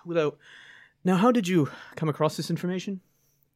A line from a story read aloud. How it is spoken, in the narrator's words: sighs, and says